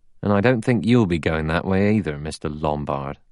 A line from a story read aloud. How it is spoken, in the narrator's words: He added dryly